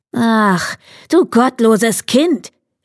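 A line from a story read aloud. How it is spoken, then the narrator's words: Sorceress calling out. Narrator (German): rief die Zauberin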